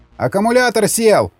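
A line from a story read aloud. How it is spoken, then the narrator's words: Shouted. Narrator (Russian): закричал танкист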